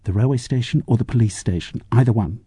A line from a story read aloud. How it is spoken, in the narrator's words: He whispered in her ear